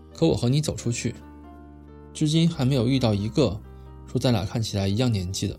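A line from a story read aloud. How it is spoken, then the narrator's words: Flat, indifferent. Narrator (Chinese): 沈岩淡淡的说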